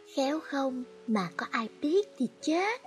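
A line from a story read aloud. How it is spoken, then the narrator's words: Soft. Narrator (Vietnamese): Tuyết khẽ nói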